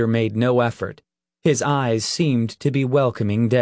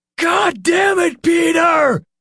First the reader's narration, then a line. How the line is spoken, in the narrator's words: Nick shouted